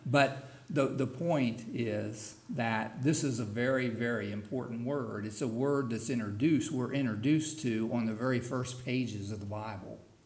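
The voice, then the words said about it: Southern hillbilly twang accent. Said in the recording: “in my hillbilly twang, I just say halak.”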